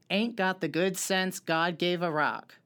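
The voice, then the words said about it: Imitates another person's voice. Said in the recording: “my best Leanne impression. It's not that good.”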